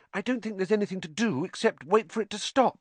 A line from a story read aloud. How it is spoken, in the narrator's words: said Hermione anxiously